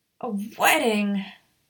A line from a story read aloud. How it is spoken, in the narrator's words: Maya groaned